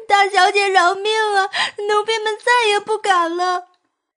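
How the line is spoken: Wailing, begging. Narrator (Chinese): 夏雨和冬雪哭天抢地起来

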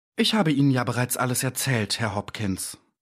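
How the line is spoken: Tired. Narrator (German): sagte müde

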